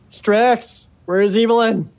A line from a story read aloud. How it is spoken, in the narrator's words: You shout